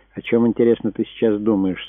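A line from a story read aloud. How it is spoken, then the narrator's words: Sad. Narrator (Russian): спросил он грустно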